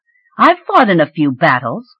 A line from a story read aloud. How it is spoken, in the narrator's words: she snapped